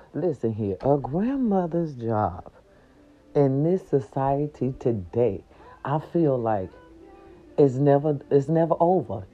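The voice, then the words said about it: Quiet, subdued speaking voice. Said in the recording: “not talking so loud”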